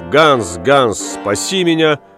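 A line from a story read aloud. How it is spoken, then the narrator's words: Shouting. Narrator (Russian): крикнув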